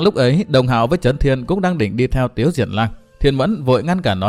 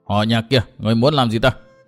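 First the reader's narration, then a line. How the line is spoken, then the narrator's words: Angry shouted question. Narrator (Vietnamese): Trấn Thiên giận dữ quát hỏi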